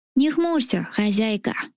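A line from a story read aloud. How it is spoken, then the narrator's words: Creaky pot-bellied creature. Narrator (Russian): проскрипел пузатый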